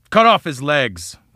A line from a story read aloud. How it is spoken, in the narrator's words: cried Lion